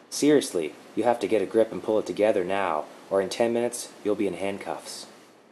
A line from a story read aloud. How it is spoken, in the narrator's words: In a calm and gentle tone, she said